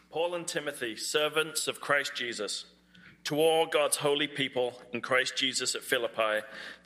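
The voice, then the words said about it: British accent. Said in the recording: “somebody with a British accent read it”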